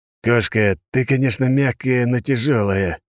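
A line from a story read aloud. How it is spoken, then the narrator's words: Groaning, crushed under weight. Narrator (Russian): простонал я, так как из-под туши весом около тонны выглядывала лишь моя голова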